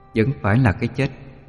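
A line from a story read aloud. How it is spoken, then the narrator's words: Cold sigh. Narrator (Vietnamese): lạnh lùng thở dài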